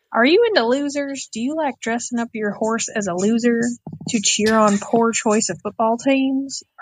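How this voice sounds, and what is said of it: Attempted Texas accent. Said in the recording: “I'll try to do a Texas accent, but it's a little harder to read”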